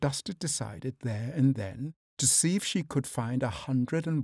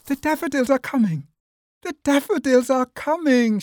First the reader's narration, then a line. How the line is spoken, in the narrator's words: she cried